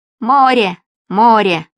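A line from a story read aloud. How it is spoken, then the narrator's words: Excited shouting. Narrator (Russian): Димка подпрыгивал на балконе и кричал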